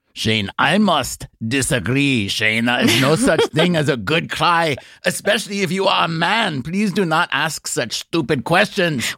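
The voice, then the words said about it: Put-on stern Teutonic accent. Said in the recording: “What accent specifically are you doing right now? ... that was my Teutonic superego”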